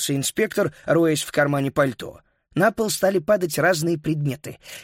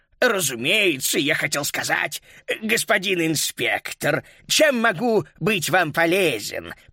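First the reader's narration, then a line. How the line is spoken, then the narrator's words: Timid babbling. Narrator (Russian): пролепетал он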